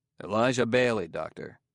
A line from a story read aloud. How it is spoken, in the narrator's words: said Bailey stiffly